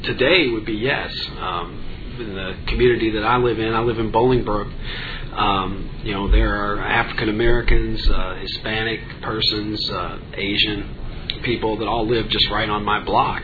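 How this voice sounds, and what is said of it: Slight Kentucky twang. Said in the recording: “you probably hear that I've got a little bit of a twang to my voice. I grew up in Kentucky”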